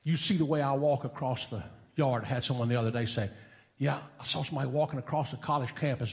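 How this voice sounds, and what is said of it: Southern American accent. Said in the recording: “One of my characteristics would be a southern accent.”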